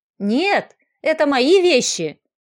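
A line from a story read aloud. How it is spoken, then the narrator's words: Shout. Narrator (Russian): закричала Варя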